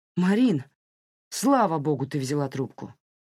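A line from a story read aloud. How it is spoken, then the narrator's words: Exclaiming. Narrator (Russian): воскликнул Саймон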